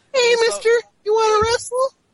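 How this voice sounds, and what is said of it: Man doing a little kid voice. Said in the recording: “The little kid voices, because it's obviously a man doing a kid voice”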